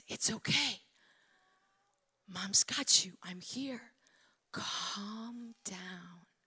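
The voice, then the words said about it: Very quiet whisper. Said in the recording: “in a very quiet voice, you whisper”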